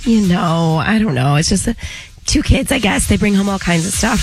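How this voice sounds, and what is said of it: Sick-sounding voice. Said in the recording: “Forgive my voice ... your injury, your weakness, your sickness”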